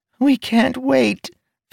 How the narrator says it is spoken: Fench squeaked

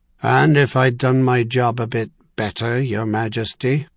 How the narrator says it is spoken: he growled

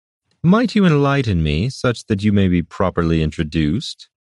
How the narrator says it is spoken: said in the most polite tone

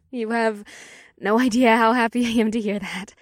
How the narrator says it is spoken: the polyworm said with a happy sigh

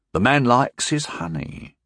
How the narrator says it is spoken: Bannermore said solemnly

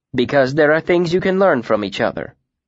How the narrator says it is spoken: Vashet said

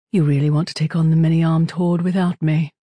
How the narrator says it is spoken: Falcone sighed

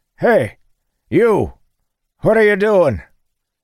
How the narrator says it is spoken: Dalen called out in a disgruntled tone

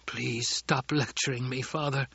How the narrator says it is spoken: Kynes whispered

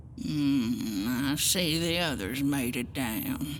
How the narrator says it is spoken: Agatha muttered

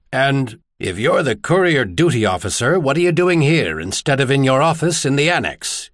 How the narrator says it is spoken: Carnicus interrupted harshly

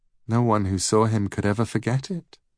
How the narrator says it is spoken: she said

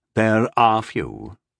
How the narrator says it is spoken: admitted Sire Darduin grimly

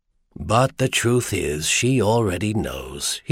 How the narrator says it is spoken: he told himself sadly

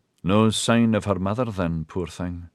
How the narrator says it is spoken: Maxon said sadly

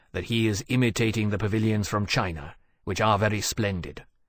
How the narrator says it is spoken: Temeraire said rather coolly

